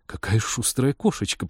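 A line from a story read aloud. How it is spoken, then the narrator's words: Startled mutter. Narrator (Russian): пробормотала девушка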